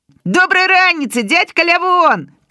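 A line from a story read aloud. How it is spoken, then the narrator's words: Shout. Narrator (Belarusian): крычу я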